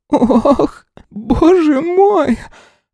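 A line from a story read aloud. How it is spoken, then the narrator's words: Unexpected squeak. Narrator (Russian): пропищал он, сам от себя такого не ожидав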